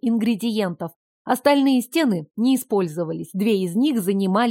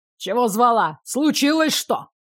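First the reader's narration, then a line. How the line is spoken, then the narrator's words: Habitual grumble. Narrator (Russian): В привычной манере проворчал Елизар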